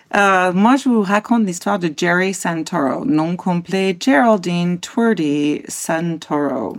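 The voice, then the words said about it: French spoken with put-on American accent. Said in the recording (French): “Tu fais beaucoup trop bien l'accent américain.”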